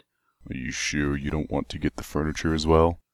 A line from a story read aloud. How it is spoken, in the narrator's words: Calamity grunted